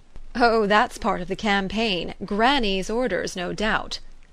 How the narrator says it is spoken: Lefferts laughed

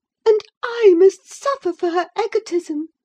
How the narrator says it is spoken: she sobbed

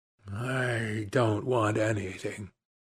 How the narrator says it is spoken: murmured the young man

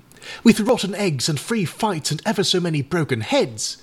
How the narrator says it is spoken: exclaimed Eric

